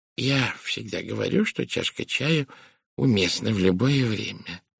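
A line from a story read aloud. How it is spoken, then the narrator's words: Muttered. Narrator (Russian): пробормотала мисс Пирс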